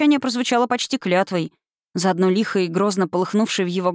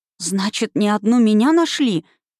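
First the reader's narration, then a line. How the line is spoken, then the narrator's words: Stunned, disbelieving. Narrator (Russian): ошеломленно выдавила я, не в силах поверить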